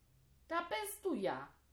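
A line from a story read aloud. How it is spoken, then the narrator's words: Glad call. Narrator (German): rief Zehn erfreut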